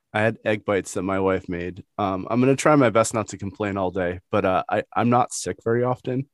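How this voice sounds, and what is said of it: Congested voice from head cold. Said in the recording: “I have a terrible head cold. I don't know if you can hear it in my voice ... I can hear it”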